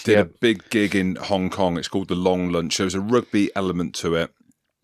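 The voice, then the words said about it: English accent. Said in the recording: “I've got an English accent, as you can tell by the twang.”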